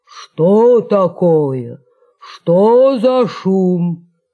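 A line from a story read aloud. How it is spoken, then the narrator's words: Sudden bark. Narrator (Russian): Да как рявкнет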